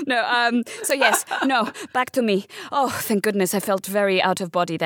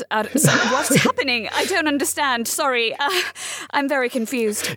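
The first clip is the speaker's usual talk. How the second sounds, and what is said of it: Put-on English accent. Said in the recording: “Why am I sounding English?”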